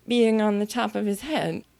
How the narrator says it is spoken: she said in a trembling voice

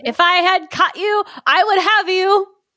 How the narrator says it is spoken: The blood sausage threatened her with it and cried out

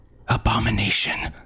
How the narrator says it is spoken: Harm whispered

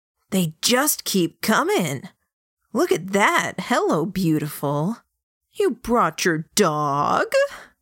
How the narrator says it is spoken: Light chuckles this time

